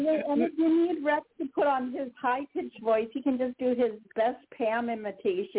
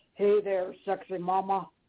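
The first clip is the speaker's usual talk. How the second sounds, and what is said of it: Deep-voiced imitation of Rex. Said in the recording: “put on your deep voice ... I'll just do my best Rex imitation.”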